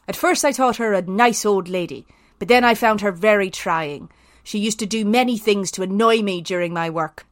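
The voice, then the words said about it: Put-on Irish accent drifting to Belfast. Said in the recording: “should I do this in an Irish accent? ... could it be a Southern Irish accent ... It was going very Belfast here, sorry. ... It is rather.”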